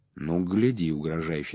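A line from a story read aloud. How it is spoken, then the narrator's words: Plain. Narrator (Russian): сказал первый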